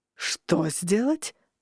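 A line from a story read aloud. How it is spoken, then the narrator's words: Growl. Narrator (Russian): я буквально зарычал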